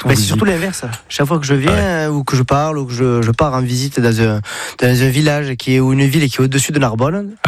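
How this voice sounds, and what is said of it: Sing-song southern French accent. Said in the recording (French): “vous venez pas du nord de la France ... l'accent, j'ai le package ... c'est chantant ça ... vous venez de Perpignan ... toi t'es du sud”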